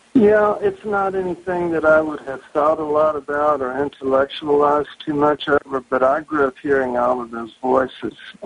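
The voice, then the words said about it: Pronounced Southern US accent. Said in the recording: “I have a pretty pronounced Southern accent, but it's nothing compared to what it was when I was a child”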